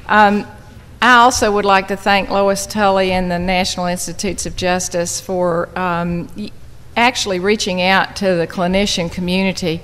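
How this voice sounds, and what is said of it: Noticeable regional accent. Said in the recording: “How many of you are going to have trouble with my accent?”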